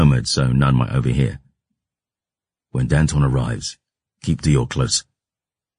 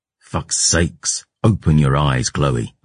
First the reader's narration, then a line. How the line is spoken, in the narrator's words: I snarled